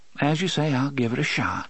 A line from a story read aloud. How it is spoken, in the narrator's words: she sighed